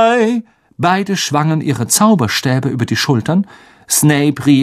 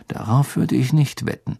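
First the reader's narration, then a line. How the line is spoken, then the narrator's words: Murmured. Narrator (German): murmelte Harry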